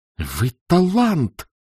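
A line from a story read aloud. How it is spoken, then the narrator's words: Exclaimed. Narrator (Russian): воскликнул Заметов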